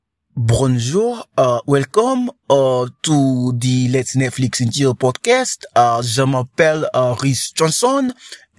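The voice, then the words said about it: Fake French accent. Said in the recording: “I'm putting a fake French accent”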